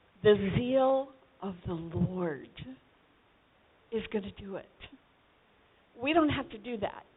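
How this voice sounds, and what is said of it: Strained, blown-out hoarse voice. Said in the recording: “my voice is kind of blown already today”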